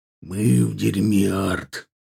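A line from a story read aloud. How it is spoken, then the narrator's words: Quiet, hushed. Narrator (Russian): тихо, так, чтобы их не услышали другие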